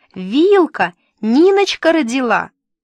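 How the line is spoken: Yelled. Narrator (Russian): заорала Тамуська

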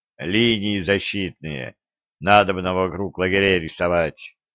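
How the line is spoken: Gloomy. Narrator (Russian): мрачно подвел итог Середин

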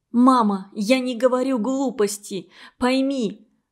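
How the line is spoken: Trembling, earnest voice. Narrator (Russian): дрогнувшим голосом и как можно убедительнее сказала Аня

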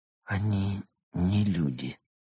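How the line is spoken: Quiet. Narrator (Russian): тихо сказал

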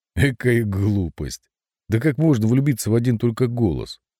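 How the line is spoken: Uncontrollable brash laughter. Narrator (Russian): гроссмейстер захохотал безудержно, как наглый мальчишка

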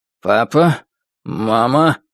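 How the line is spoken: Grumbled through teeth. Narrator (Russian): сквозь зубы буркнул Чип, надеясь, что девушка с голубыми волосами уже далеко и ничего не услышит

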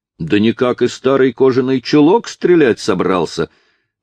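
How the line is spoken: Carefree shout. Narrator (Russian): крикнул его беспечный соперник

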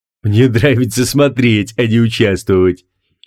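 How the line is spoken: Giggling. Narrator (Russian): хихикнул Квиллион

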